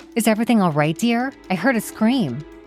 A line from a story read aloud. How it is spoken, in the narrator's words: said, her voice laced with worry